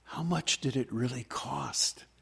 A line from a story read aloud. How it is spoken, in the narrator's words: lowered her voice and leaned in close and said